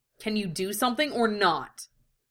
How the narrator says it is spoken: the older brother snapped

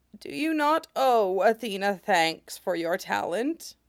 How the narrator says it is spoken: she croaks

